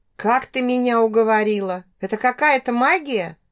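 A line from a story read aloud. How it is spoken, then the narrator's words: Laughing. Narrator (Russian): Смеялась я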